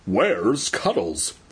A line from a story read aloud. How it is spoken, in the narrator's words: He stammered